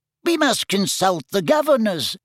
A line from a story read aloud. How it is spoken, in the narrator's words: said Professor Flitwick in his squeaky little voice